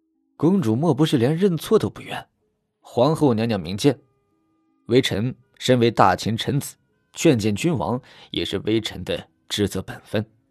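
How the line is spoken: Sighing. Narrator (Chinese): 徐策可不想放过她，摇头叹气道

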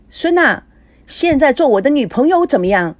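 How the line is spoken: Sudden loud shout. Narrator (Chinese): 高培志唱着唱着，突然大声的喊

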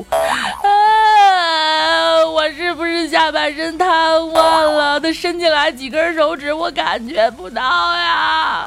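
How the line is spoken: Sudden loud wailing. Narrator (Chinese): 梁一突然间嚎啕大哭

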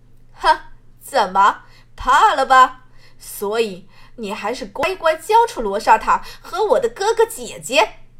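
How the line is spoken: Smug, triumphant. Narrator (Chinese): 罗云裳得意一笑

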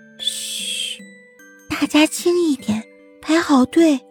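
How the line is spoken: Small creature whispering. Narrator (Chinese): 小刺猬在小声地跟别人说话

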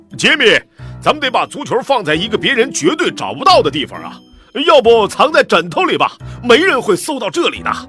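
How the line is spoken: Deliberately loud. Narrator (Chinese): 杰米爸爸故意扯着嗓子大声说

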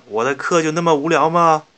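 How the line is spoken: Shouting teacher. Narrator (Chinese): 一个秃头的老师……一边大叫着

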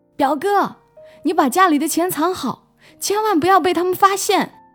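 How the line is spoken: Distant girl shouting. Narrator (Chinese): 跑远了的女生对着罗宁大喊

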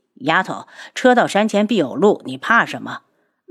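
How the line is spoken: Sighing. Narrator (Chinese): 楚清瑶叹了口气

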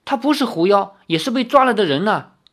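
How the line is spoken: Shouting. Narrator (Chinese): 张小慧叫道

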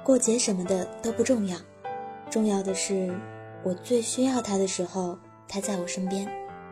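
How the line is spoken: Gentle, tender. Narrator (Chinese): 栗子都会温柔地说

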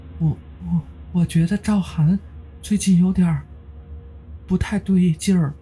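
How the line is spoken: Trembling voice. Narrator (Chinese): 刘梅颤声说

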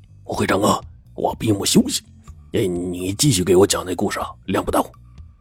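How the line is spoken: Low voice. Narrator (Chinese): 杨有田低声说

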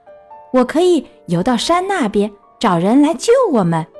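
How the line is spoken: Sudden shout. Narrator (Chinese): 弗洛格突然大叫一声

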